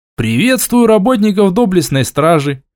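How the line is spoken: Cheerful, grinning. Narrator (Russian): весело сказал я, растянув губы до ушей

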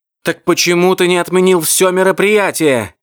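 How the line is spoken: Female shouting. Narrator (Russian): кричала она

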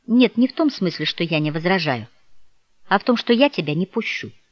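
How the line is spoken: Quiet. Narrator (Russian): Девушка также тихо проговорила

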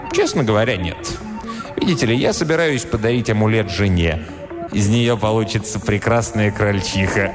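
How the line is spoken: Chuckling. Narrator (Russian): Он хохотнул

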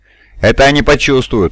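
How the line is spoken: Scornful snort. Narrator (Russian): фыркнул один из остальных

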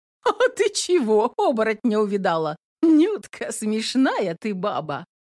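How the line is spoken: Laughing. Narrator (Russian): хохотнула Домна

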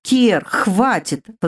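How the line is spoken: Indignant huffing. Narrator (Russian): возмущенно запыхтела

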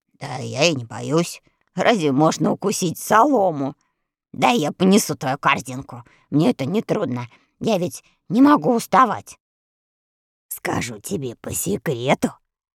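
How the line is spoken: Hoarse whisper. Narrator (Russian): прошептал на ухо девочке своим хрипловатым голосом

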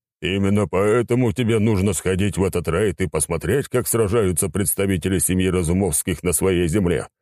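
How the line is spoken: Cheerful speech. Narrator (Russian): весело произнес африканец

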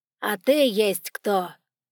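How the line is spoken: Rude questioning. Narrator (Russian): Все так же грубо интересовался Тейлор

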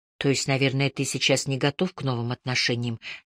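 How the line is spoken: Quiet gentle question. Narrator (Russian): тихо спросила я, смягчая прямоту вопроса улыбкой

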